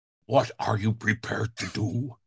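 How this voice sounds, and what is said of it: Imitates another person's voice. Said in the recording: “That's my impersonation. ... Very good.”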